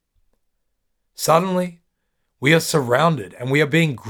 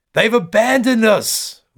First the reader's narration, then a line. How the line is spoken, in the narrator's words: one woman screams